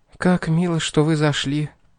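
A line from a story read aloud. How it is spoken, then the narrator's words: Quiet. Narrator (Russian): тихо сказала она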